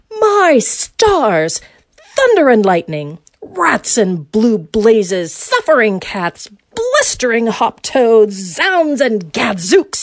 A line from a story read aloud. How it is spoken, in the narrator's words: he shouted